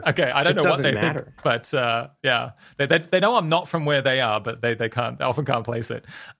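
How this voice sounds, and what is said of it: Australian accent. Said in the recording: “people hear your accent and they think you're smart ... I'm not British. I'm Australian”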